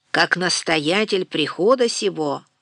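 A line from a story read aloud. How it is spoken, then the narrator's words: Deep bass, priest. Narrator (Russian): забасил поп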